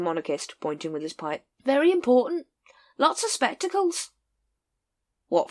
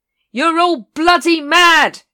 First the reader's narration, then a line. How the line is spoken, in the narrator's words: shouted Vimes